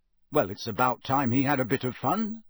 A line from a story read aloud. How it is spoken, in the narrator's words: said Harry